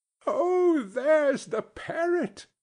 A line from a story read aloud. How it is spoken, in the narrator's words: cried Scrooge